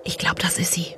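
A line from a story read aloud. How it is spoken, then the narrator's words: Whispered. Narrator (German): flüsterte eine Stimme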